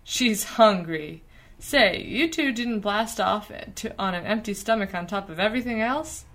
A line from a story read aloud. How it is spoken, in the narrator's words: He groaned